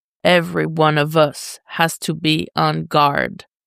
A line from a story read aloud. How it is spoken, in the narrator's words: Bruce growls